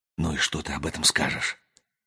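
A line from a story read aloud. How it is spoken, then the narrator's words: Whispered. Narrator (Russian): прошептал Ричард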